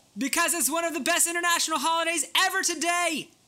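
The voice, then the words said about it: Loud excited all-caps shouting. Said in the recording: “Why are you so excited? Why are you talking like that? ... you yell. You're not yelling, you're talking in caps lock ... I'm talking in caps lock!”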